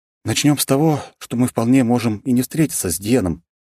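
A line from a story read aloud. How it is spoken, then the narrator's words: Heavy sigh. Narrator (Russian): тяжело вздохнула Авета в ответ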